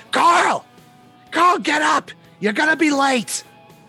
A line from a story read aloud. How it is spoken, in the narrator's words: You hear screaming